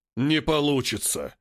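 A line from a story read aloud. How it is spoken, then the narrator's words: Menacing roar. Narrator (Russian): грозно рычит король джунглей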